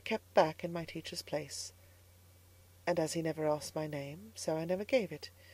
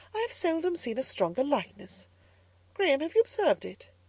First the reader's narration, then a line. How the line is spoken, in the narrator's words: she exclaimed presently